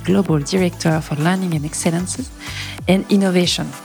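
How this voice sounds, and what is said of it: English with French accent. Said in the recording (French): “avec mon accent Frenchy”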